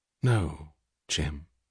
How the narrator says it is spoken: she said quietly

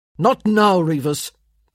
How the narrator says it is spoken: Michael snapped

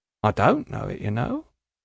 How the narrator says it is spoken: says the old man quietly

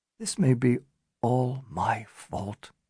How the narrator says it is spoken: Daron said suddenly, almost in a whisper

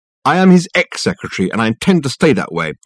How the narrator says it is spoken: she said, firmly

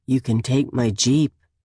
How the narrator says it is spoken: adds, his voice gruff

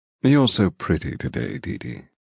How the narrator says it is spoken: he murmurs

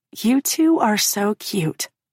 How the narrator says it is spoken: Demi says

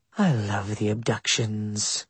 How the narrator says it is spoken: she muttered

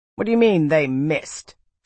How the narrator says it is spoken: Fidelia snapped

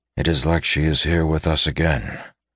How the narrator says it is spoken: he admitted softly

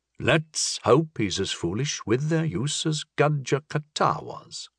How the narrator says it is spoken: muttered Turlamon

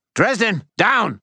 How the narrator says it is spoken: Butters yell

